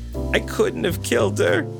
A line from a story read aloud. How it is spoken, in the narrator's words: she sobbed